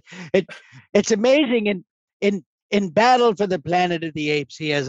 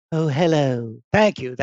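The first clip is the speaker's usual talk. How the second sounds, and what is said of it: Imitates another person's voice. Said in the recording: “my Roddy impression”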